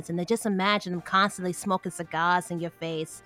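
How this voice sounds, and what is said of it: New York accent. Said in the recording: “I went to a New York accent saying that”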